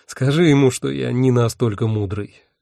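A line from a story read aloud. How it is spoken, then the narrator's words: Sighing. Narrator (Russian): вздохнул я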